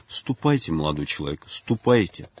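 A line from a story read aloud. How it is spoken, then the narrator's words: Soft, gentle. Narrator (Russian): мягко промолвил Николай II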